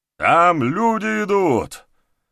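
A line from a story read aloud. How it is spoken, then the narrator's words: Someone shouting. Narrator (Russian): крикнул кто-то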